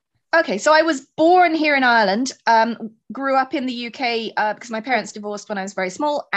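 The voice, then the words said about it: Mixed English and Irish accent. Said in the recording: “I have a lovely mongrel accent, which is kind of English, kind of Irish. No one can quite figure me out.”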